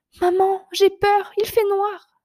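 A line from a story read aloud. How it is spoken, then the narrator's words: Cried out. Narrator (French): s'écrie Toulouse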